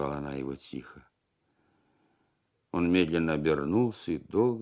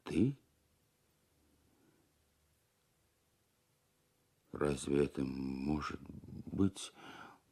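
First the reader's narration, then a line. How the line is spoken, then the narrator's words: Muttered. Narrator (Russian): бормотал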